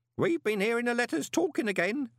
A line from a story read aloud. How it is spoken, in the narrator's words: said Groat